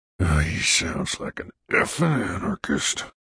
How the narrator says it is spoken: the vice president muttered

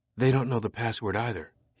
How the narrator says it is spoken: whispered

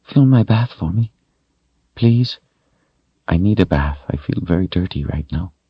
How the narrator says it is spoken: said in a small voice

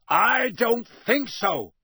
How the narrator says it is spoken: roared Moody

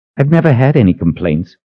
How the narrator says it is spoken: he snapped

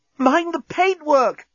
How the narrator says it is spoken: gasped Corporal Inchby Wiglet

